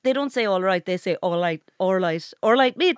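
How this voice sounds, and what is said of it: Put-on Belfast Northern Irish accent. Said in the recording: “my northern accent is pretty strong ... I like this part of Belfast”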